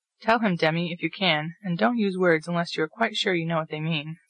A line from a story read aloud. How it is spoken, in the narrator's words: said Mr